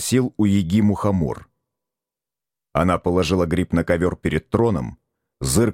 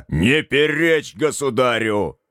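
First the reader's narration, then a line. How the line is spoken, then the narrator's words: Sudden roar. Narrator (Russian): Неожиданно взревел горох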